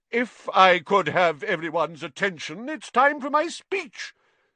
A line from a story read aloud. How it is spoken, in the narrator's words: said Nearly Headless Nick loudly